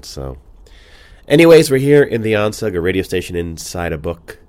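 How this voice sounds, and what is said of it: Congested voice from a cold. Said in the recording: “Sorry about my voice. Obviously, I have a cold.”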